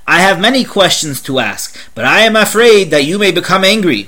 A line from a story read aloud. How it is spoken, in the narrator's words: The man continued roughly